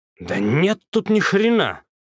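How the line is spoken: Angry. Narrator (Russian): зло выдал Козлов

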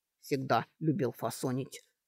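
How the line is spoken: Grumbling. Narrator (Russian): снова заворчал орк

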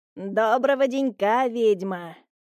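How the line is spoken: Creaky voice. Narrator (Russian): проскрипел голос Петровича

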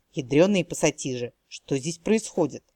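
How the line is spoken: Embarrassed girl mumbling. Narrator (Russian): смущенно пробормотала девушка

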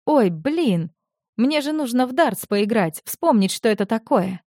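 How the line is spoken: Surprised snort. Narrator (Russian): Лука удивленно хмыкнул

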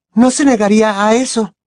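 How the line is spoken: Breathless exclamation. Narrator (Spanish): exclamó Hermione casi sin voz

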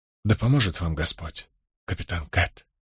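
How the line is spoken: Whisper. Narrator (Russian): прошептала Лис

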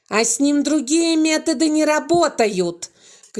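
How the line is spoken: Woman shouting. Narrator (Russian): кричала на кого-то старшая воспитательница

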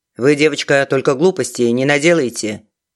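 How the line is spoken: Fatherly tone. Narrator (Russian): отеческим тоном заключил он

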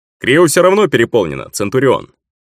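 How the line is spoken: Cheerful soldier's answer. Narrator (Russian): бодро ответил кто-то из бойцов

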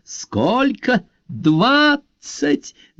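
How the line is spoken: Answering with loud laughter. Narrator (Russian): захохотав, ответила Марио Грация

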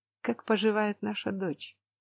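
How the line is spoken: Muffled voice. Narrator (Russian): Ее голос прозвучал глухо

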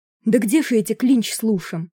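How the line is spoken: Desperate exclamation. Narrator (Russian): в отчаянии воскликнул Пори, из последних сил отшвыриваясь от наседающих хачук

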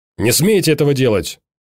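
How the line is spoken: Harsh bark. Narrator (Russian): рявкнул прокурор

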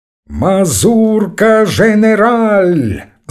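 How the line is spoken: Shouting. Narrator (Russian): закричал Бабетинский

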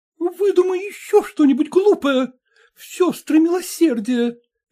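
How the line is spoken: Frightened. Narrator (Russian): испуганно проговорила она

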